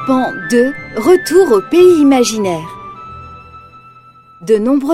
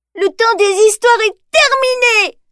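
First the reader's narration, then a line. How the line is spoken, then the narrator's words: Shouting tearfully. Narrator (French): crie-t-elle à Danny en pleurs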